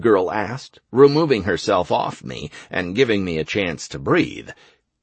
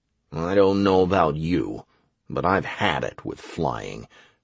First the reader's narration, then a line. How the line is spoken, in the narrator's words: I grumbled